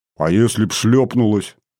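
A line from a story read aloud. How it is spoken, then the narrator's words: Grumbling. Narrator (Russian): заворчал я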